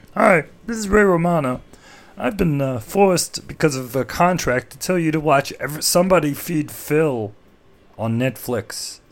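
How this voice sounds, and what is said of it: Ray Romano impression. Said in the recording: “does a Ray Romano impression,”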